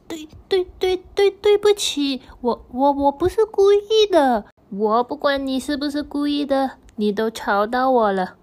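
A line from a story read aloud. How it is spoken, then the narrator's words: Frightened stammering apology. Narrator (Chinese): 小猫咪吓得结结巴巴的道歉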